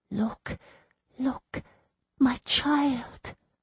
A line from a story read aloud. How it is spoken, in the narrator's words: she was whispering